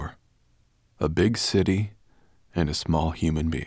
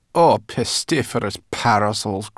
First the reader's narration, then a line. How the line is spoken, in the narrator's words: grumbled Sorrel